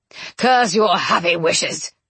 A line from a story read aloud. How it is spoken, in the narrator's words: Rochester growled